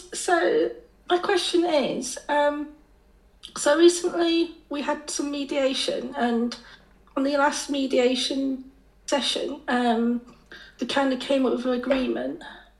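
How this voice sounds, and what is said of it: Croaky hoarse voice. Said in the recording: “my voice is a bit croaky ... I'm just recovering from COVID.”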